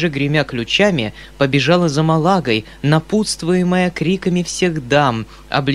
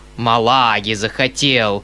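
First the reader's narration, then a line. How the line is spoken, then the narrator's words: Grumbled under breath. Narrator (Russian): проворчал он чуть не вслух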